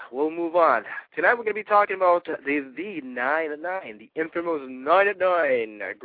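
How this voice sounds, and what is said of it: Congested, screwy-sounding voice. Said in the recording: “I just had some cold and runny nose ... My voice is all screwy. Doesn't even sound like me.”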